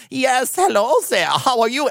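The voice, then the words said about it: Put-on weird foreign accent. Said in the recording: “a weird, like, ... accent”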